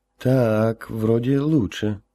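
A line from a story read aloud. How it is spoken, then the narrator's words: Doubtful drawl. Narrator (Russian): с сомнением протянул Гоша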